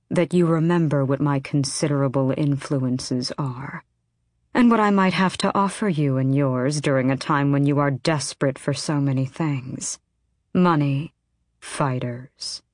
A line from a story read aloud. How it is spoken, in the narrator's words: he said smoothly